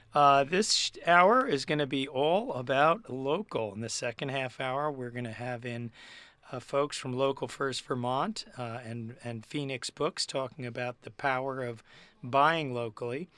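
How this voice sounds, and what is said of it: Hoarse, laryngitic voice. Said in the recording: “As you can hear, battling through some laryngitis”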